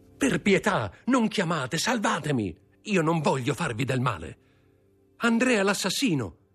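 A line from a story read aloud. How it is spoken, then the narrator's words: Woman shouting. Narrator (Italian): gridò una delle due donne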